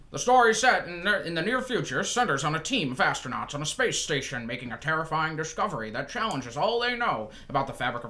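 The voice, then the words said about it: 1940s newsreel announcer voice. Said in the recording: “1940s, you're in a movie theater, you're waiting for your feature to start, but you're getting a report of the war.”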